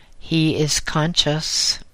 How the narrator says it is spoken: An unemotional voice flatly stated

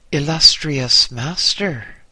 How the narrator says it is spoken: I said

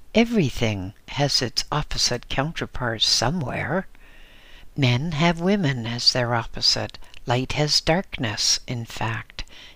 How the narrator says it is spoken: continued with a laugh

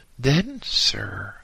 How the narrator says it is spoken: I exclaimed

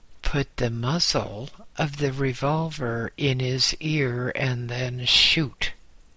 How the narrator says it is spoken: said the governor

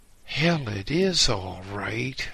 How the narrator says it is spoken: I exclaimed gloomily

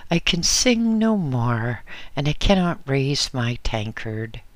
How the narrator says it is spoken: exclaimed Thomas the Bus

